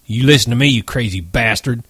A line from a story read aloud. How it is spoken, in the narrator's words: he said fiercely